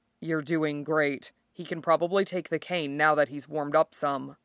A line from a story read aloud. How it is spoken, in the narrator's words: Dirk brings his mouth to your ear so he can murmur